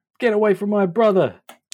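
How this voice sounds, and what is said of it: Shouted character voice. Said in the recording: “in my best Irina voice”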